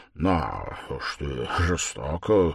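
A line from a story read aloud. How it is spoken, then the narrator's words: Muttering. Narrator (Russian): пробормотал Никодим Фомич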